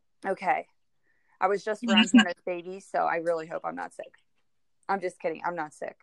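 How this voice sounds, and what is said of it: Hoarse, fading voice. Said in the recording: “I've been having a hard time recording because I'm losing my voice, but I feel fine, but I'm losing my voice.”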